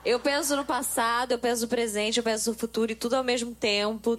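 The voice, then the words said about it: Put-on Minas Gerais Brazilian accent. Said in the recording (Portuguese): “Você é mineira também? ... Não, eu fiz um sotaque mineiro. ... Muito bom, é.”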